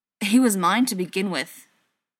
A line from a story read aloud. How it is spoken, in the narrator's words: John said, his tone harsher than he knew was warranted